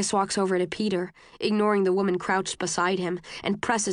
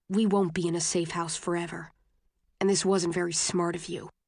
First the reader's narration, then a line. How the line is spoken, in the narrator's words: Tobias says to him, very quietly